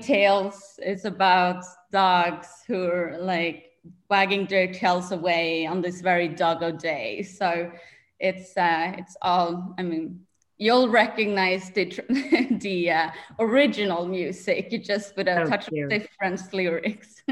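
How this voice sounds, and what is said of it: Swedish accent. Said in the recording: “I'm originally from Sweden, Stockholm, hence my accent.”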